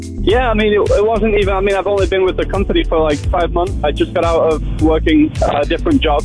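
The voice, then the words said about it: English accent. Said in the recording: “I love that accent... I'm from originally from England... They're going to sound great in that accent.”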